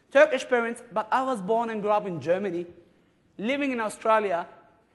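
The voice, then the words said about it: Non-native accented English. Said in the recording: “accent will make your job easier. You notice our accent? ... This accent hopefully is going to help you”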